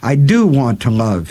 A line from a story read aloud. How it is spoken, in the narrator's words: he cried